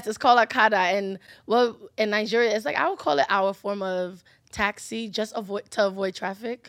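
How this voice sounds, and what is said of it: Nigerian-accented English. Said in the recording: “my English accent kind of like butcher it for you guys”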